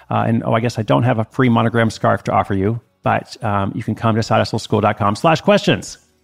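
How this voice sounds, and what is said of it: Speaks very fast. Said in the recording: “Sorry, I said that really fast.”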